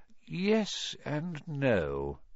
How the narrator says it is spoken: said Dumbledore quietly

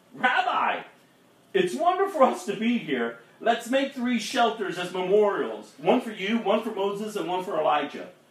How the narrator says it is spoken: Peter exclaimed

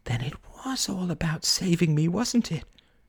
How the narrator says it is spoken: She whispered

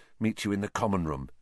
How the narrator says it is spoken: Harry muttered

